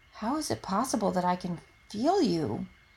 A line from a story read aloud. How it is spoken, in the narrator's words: whispers